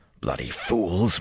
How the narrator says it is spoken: Matt muttered

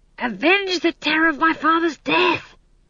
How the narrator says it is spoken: he hissed

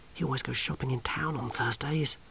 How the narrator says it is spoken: whispered Johnny

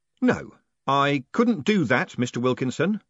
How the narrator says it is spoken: said Moist, loudly, after a decent pause for dramatic effect

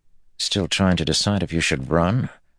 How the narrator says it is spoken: Matt asked Min under his breath

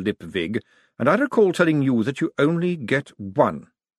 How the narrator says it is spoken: he said a little stiffly

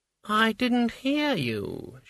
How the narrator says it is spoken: purred

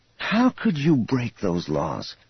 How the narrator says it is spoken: Thraken sighed wearily

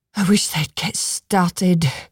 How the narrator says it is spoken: the woman whispered to Ivy

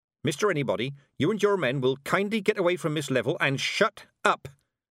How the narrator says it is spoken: said Mistress Weatherwax quickly

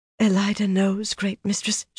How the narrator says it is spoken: she breathed

